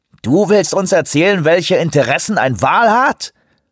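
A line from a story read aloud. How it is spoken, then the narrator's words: Mocking. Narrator (German): höhnte Greywolf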